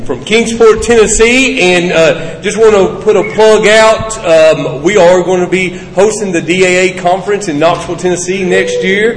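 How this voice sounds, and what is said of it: Regional American accent. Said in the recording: “from my accent, y'all probably can tell that I'm not from Florida.”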